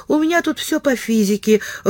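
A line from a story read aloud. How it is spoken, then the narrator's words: Timid start. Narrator (Russian): робко начал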